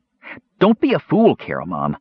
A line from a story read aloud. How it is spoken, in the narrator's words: the kender said sharply